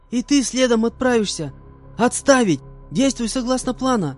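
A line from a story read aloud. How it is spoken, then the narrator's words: Young woman shouting. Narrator (Russian): Закричала на меня девушка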